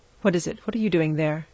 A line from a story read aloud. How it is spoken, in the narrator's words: he demanded almost fiercely